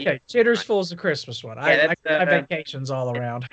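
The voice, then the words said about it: Imitates another person's voice. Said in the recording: “That's my Dan Mullen impression.”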